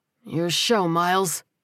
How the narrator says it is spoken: he muttered

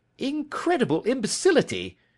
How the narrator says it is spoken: he cried

